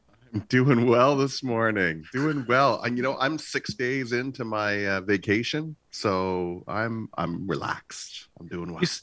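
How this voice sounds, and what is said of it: Relaxed, smooth radio voice. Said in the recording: “You sound super chill, man. In fact, you have a wonderful radio voice.”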